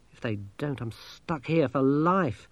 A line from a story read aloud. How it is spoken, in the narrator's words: said Masklin bitterly